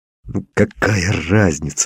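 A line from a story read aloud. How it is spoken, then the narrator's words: Angry hiss. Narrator (Russian): злобно зашипел я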